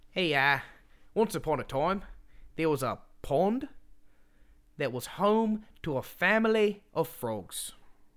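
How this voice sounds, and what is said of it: Put-on Australian accent. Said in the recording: “They all talk Australian. ... I'll read a couple pages of this book in Australia.”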